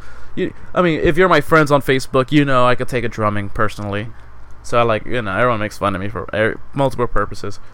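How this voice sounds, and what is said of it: Non-native accent, TH sounds like D. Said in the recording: “my accent makes it sound like I said dick skin... Thick TH”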